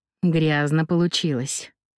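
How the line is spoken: Sighing. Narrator (Russian): вздохнул Джакомо

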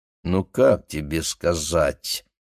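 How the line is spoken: Drawn out. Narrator (Russian): протянул Гриша

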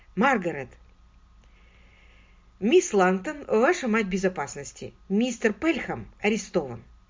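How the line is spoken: Calm. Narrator (Russian): спокойно сказала мисс Силвер

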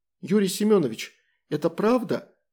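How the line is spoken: Girl's trembling question. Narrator (Russian): дрожащим голосом спросила девушка

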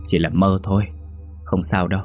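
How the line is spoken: Sighing. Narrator (Vietnamese): Nhung thở dài

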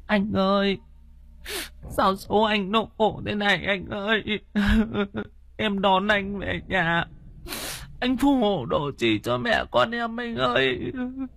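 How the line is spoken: Weeping lament. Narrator (Vietnamese): thím Kích khóc lóc, thím Nhàn ở bên kia thì than vãn

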